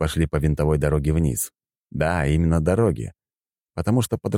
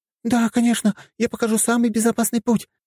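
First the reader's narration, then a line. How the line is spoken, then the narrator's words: Quick babble. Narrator (Russian): тут же пролепетала она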